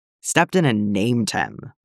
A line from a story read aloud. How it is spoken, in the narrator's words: Bly growls